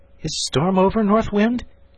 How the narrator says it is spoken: he called out

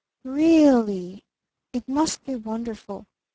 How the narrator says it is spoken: breathed little Eve Edgerton

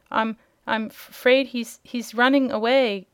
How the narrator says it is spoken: gasped Dorothy

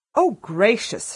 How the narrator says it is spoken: she exclaimed

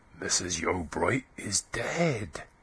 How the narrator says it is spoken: the cotters whispered

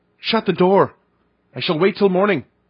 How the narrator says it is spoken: as the last chance I cried out

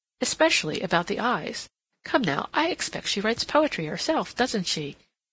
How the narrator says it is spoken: she asked in a jocular tone

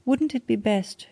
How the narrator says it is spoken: continued, speaking nervously

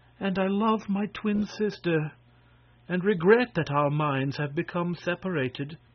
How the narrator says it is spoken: she continued sadly

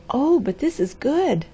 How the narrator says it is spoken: she cried

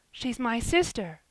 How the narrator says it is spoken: cried Ben

